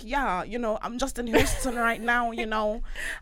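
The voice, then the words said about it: Nigerian accent with Americanized twang. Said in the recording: “I'm hearing the accent. ... I can still hear the Nigerian. ... the Nigerian is there, but he's gone a bit Hollywood with it.”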